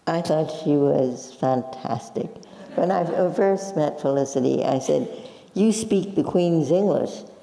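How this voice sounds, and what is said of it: Slight Brooklyn accent. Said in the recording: “You have still a bit of a Brooklyn accent”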